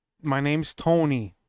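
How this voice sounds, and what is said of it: Slow-talking character voice, odd accent. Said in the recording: “He sounds like an idiot. ... I don't know what accent that is. ... He talks so slow.”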